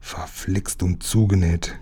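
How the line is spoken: Echoing growl through teeth. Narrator (German): knurrte Lukas durch die Zähne, und seine Stimme hallte von den steinernen Wänden und Pfeilern wider

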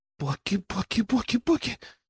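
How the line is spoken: Frightened mumbling. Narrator (Russian): забормотала Дина от страха

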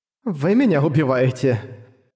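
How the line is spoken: Groaning. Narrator (Russian): простонала Фиш

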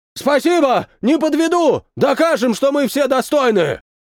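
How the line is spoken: Shout. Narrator (Russian): Прокричал он

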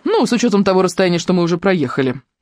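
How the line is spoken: Calm. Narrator (Russian): спокойно ответил федерал

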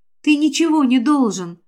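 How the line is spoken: Calm objection. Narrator (Russian): спокойно возразила я

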